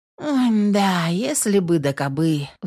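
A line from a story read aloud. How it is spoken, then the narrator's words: Sighing. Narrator (Russian): вздохнула Наташа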